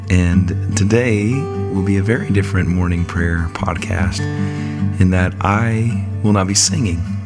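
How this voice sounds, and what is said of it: Sick, under-the-weather voice. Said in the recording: “As you can probably hear in my voice is under the weather.”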